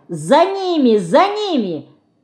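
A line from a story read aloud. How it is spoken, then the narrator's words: Shouting. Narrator (Russian): кричала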